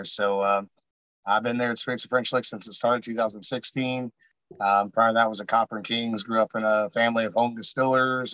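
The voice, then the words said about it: Hoarse, froggy voice. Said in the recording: “I don't always sound as though I'm imitating Diane Reams. Although this evening, because I lost my voice last week ... I'm a little still got a little frogginess in my throat there.”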